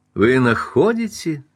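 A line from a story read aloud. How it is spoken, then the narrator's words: Flattered laughing reply. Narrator (Russian): смеясь ответила Рита, польщенная замечанием Каупервуда и покоренная его близостью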